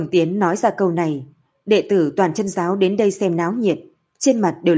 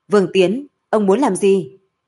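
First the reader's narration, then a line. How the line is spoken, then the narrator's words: Loud shout. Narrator (Vietnamese): Tổ Thành lớn tiếng quát lớn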